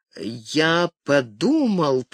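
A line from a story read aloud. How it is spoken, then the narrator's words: Drawled. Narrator (Russian): протянул он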